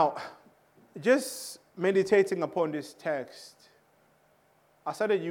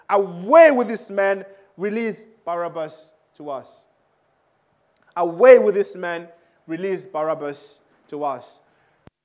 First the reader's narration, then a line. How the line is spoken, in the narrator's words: the crowd shouted